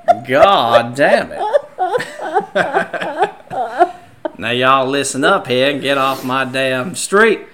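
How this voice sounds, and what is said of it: Put-on Southern Charlestonian-style accent. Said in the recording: “that's kind of a, like a Charlestonian accent, or like a Baton Rouge”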